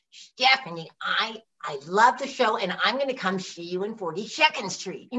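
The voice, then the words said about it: Imitates another person's voice. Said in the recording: “best Carol Channing impersonation”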